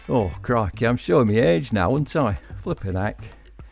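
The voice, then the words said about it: Put-on northern English accent. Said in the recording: “in a northern accent”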